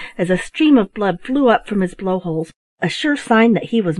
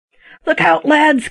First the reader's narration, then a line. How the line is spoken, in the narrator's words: cried Tom